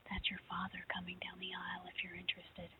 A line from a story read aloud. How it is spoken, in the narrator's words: My mother whispers